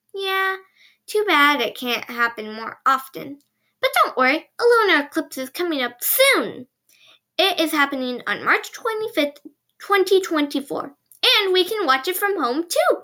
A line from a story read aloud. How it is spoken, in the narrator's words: Pila exclaimed